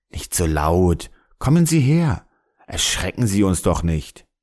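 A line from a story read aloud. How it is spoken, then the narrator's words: Calm, smiling. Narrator (German): ich blieb ruhig und antwortete lächelnd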